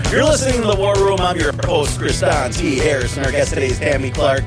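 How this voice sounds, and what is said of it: Wisconsin accent. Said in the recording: “that weird Wisconsin accent like I got”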